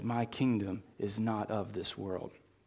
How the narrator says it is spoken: Rather, calmly, he says

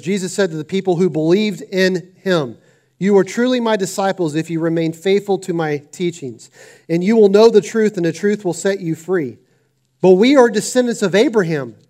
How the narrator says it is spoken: they said

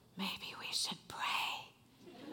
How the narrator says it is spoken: my mother-in-law leans over and she whispers

